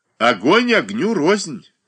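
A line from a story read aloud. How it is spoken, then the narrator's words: Laughing. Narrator (Russian): засмеялся Александр Прохоров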